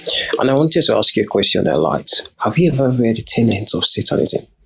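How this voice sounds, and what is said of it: Noticeable accent, hard to understand. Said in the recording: “you have an accent... Yeah, I have an accent... I don't understand what he's saying”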